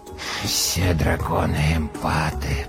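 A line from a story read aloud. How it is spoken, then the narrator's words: Muttered. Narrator (Russian): пробормотал он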